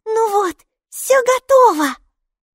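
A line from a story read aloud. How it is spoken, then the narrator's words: Showman-like exclamation. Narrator (Russian): воскликнула, как цирковой конферансье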